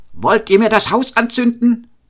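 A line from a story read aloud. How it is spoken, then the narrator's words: Shouted. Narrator (German): schrie er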